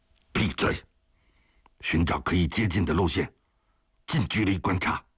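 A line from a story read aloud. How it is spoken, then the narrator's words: Low growl. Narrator (Chinese): 荒木刚元低沉地吼着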